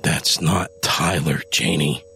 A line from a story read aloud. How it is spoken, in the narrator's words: Adam growled